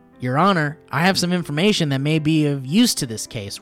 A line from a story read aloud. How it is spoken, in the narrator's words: Ron yelled